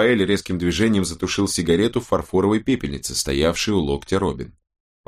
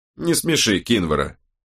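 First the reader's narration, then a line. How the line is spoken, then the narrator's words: Short snort, then speaking. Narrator (Russian): коротко хмыкнув, сказала Изи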